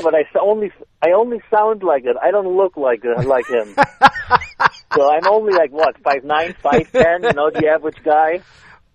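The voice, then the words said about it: German accent, tough-sounding voice. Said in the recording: “if you sound like that, people are like, uh-oh, this guy sounds tough ... I have a German accent”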